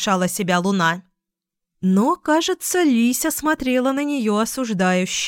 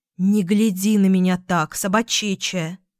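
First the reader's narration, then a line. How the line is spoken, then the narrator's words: Grumbled. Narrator (Russian): буркнула Луна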